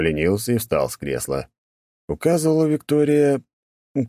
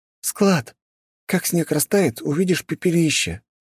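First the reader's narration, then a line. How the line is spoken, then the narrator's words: Sad sigh. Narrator (Russian): Грустно вздохнула Виктория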